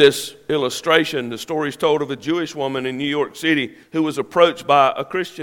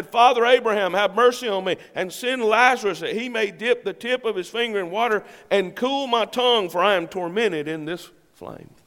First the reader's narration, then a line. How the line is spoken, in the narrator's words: He cried and said